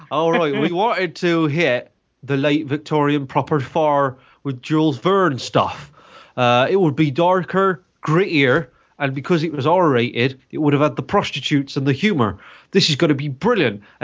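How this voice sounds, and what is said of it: Put-on Bristol accent. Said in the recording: “I'll continue doing the Bristol accent.”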